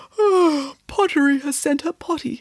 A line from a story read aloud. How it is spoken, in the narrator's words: said Melanie, yawning as she woke up